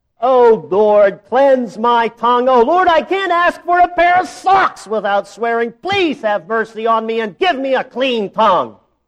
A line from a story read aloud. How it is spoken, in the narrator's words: he cried aloud